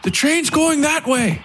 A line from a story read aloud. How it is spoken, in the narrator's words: Elam shouted to the priest